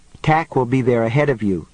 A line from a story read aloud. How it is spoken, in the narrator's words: David said